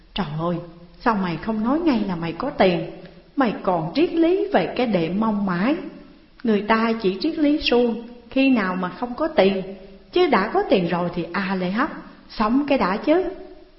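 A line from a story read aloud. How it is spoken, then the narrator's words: Eager whining. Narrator (Vietnamese): mắt Tuấn sáng ngời và chàng rên rỉ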